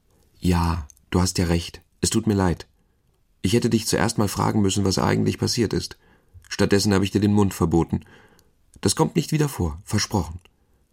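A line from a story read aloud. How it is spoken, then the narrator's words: Plain. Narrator (German): sagte sie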